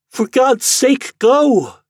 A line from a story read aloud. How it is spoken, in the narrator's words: She cried